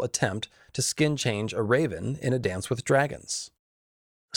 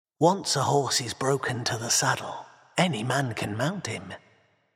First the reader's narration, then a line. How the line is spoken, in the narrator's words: said in a soft voice